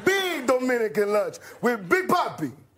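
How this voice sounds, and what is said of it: Impression of Big Papi. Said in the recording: “his impression of the Red Sox player Big Poppy”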